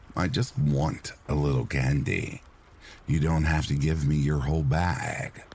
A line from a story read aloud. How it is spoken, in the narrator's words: said